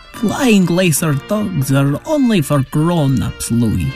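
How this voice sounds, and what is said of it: Sloppy put-on foreign accent. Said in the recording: “Did Mother Landa really talk like that? ... It sounds like kind of a sloppy accent.”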